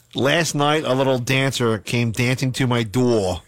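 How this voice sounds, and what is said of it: Philadelphia accent. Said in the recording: “My Philly accent?”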